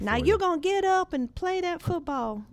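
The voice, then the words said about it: Imitates an actress's Texas accent. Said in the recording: “doing a bad Texas accent ... That's a great Sandra Bullock, actually.”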